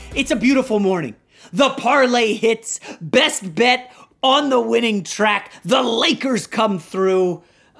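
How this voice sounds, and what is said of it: Gleeful, upbeat voice. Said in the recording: “You can hear the glee in my voice.”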